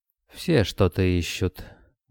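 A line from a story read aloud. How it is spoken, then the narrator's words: Soft reply. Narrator (Russian): мягко отозвался Йован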